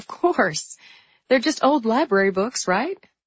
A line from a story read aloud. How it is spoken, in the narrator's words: She said with a laugh